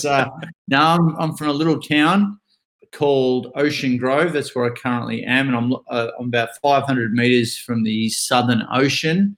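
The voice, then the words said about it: Australian accent. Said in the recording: “I love your accent. Where are you from?”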